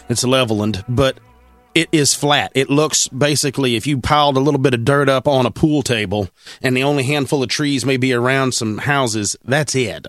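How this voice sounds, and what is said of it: Texas hillbilly accent. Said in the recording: “our hillbilly Texas accent”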